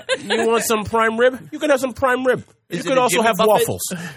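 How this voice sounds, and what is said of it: Put-on New York accent. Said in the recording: “saying this in like a New York accent”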